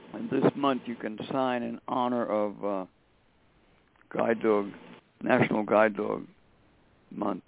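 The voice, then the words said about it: Tired-sounding voice. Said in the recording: “You sound very tired”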